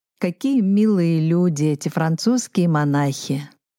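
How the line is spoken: Laughing. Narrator (Russian): засмеялся

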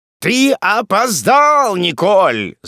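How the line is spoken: Shrill shout. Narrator (Russian): закричал чей-то пронзительный голос

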